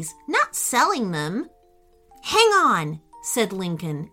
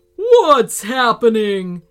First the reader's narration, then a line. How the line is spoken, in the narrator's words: roared